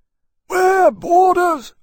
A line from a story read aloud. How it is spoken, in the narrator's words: Lieutenant Johns shouted in his hoarse baritone